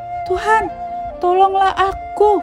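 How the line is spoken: Frightened desperate shout. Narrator (Indonesian): takutlah ia dan mulai tenggelam, lalu berteriak

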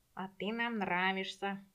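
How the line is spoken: Purring creatures. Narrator (Russian): мурлыкали ритузы

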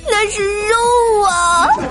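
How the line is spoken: Glum plaintive. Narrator (Chinese): 条儿哭丧着脸对保安大哥说

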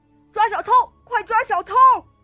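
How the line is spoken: Shouting. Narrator (Chinese): 有人大喊

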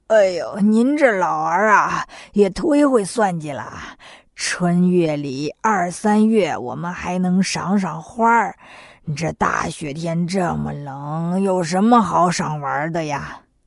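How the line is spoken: Laughing. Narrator (Chinese): 八戒笑了起来

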